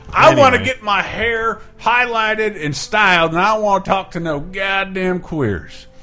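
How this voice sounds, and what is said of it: Put-on Southern accent. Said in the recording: “speaking as himself, ironically ... That is my typical Southern accent.”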